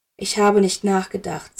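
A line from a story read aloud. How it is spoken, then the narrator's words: Very quiet. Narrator (German): sagte Dumbledore ganz leise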